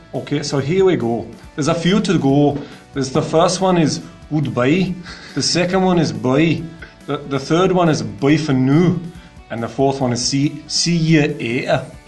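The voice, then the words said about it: Put-on Scottish accent. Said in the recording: “Now I'm going to try and do it in Scottish accent.”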